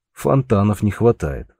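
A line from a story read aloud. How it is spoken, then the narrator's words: Short chuckle. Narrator (Russian): хохотнул Георг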